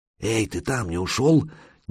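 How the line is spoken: Quiet call from below. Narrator (Russian): негромко позвали снизу

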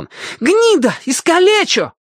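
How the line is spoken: Boys shouting, deeply hurt. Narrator (Russian): кричали доведенные до крайней обиды мальчишки

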